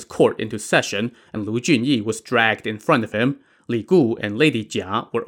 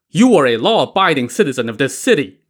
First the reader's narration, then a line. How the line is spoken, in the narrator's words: Governor Liang barked at Lu Junyi